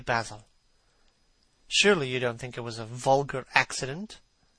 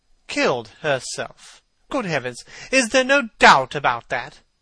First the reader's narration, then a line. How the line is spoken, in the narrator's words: cried Hallward, with an expression of horror